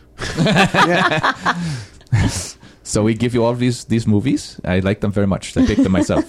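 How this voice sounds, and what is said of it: Wolfgang Puck impression. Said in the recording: “do an impression of Wolfgang Puck now? ... That was what I was trying to do.”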